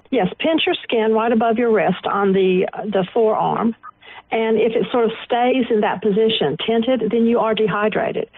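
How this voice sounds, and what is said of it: Southern American accent. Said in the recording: “It's a southern accent.”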